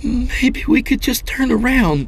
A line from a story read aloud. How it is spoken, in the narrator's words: she pleaded